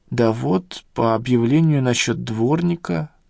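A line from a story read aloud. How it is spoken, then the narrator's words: Mumbled. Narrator (Russian): промямлил я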